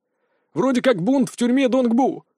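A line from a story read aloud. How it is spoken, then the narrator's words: Employee shouting reply. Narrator (Russian): выкрикнул в ответ один из служащих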